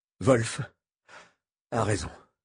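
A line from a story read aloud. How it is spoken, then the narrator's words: Halting, broken voice. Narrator (French): répondit-il d'une voix hachée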